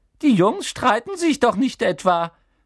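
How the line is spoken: Squeaking. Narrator (German): quiekte er

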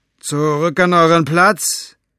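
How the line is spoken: Shouted. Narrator (German): rief Capricorn den aufgebrachten Männern zu

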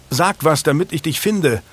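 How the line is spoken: Calling out. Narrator (German): rief Julian

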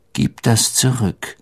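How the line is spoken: Calm voice. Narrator (German): sagte Harry mit ruhiger Stimme

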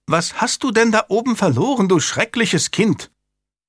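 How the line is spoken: Called out. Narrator (German): rief die Gouvernante

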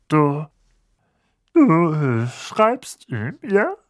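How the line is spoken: Forced calm voice. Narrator (German): sagte Onkel Vernon mit angestrengt ruhiger Stimme

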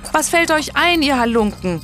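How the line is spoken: Calling after. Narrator (German): rief Richmond ihnen nach

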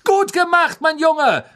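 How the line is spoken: Repeated calling. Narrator (German): rief Wood immer wieder

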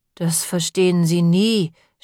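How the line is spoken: Groan. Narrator (German): stöhnte Moppel

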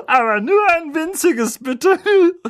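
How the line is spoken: Giggling. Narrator (German): kicherte sie

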